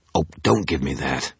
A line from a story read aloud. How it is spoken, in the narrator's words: I snapped